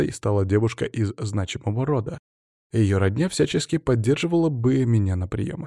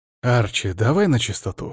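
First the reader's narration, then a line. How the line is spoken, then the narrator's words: Snorting. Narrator (Russian): хмыкнул я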